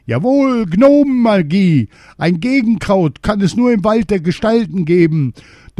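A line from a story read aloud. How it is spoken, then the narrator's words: King shouting. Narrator (German): Wieder schrie der König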